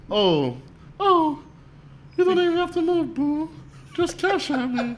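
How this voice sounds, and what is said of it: Mimics a girl's voice. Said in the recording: “In the girl voice.”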